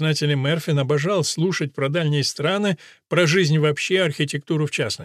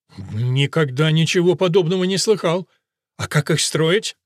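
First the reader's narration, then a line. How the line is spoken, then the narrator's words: King laughing. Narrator (Russian): Король рассмеялся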